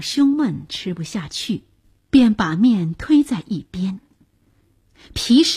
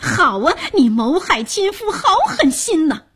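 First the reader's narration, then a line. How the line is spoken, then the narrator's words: Shouting. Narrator (Chinese): 他便高喊着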